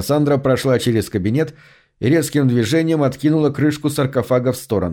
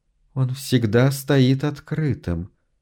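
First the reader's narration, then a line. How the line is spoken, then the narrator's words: Quiet mumble. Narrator (Russian): пробормотала тихо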